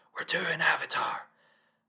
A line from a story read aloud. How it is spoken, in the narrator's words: Jim, whose eyes light up, … loudly whispers